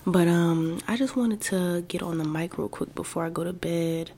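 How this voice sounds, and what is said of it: Whispering. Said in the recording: “I am kind of whispering right now”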